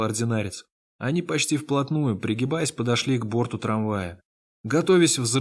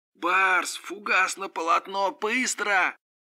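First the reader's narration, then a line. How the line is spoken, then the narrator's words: Shouted. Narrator (Russian): прокричал Один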